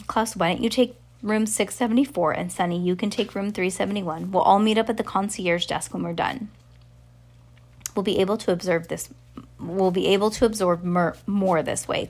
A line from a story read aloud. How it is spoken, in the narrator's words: Klaus said hopefully